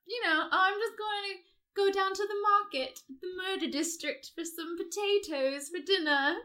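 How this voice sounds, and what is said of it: Put-on British accent. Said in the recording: “Why are they British? ... it's the only accent I can do”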